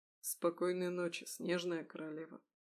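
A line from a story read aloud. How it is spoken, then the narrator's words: Quiet. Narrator (Russian): тихо сказал Михаил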